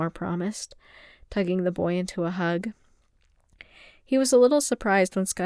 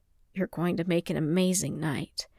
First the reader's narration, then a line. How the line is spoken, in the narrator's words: he murmured against the boy's hair